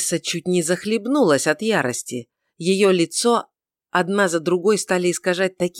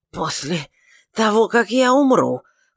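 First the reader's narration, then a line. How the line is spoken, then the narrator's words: Hoarse mutter. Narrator (Russian): хриплым голосом пробормотала гостья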